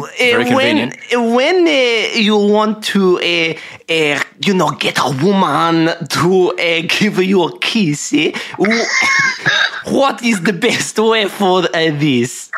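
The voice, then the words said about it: Put-on French accent. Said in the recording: “here he goes in a French accent ... he sounds like Italian man ... I'm doing a French accent. ... That sounded really nice.”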